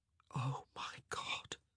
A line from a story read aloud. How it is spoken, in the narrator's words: he whispered